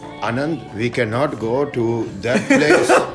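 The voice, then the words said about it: Put-on accent quoting relatives. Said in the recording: “With that accent? ... Yeah.”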